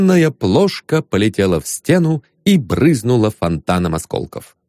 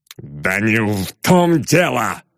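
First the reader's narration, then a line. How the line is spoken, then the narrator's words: Growl. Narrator (Russian): прорычал Лебедев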